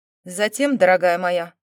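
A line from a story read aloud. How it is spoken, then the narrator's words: Irritated, through teeth. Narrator (Russian): раздраженно процедил Доминик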